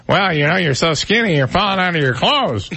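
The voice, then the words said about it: Imitates another person's voice. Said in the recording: “That's exactly how his voice sounds. For those who don't know, just exactly like that ... I don't know how he ever got to be a lawyer with a voice like that ... Sounds like Joe Pesci.”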